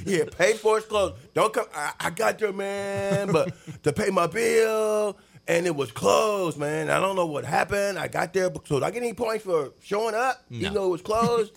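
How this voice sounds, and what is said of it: Cheech and Chong impression. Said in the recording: “That's my Cheech and Chong impression. ... Cheech or Chong, one guy.”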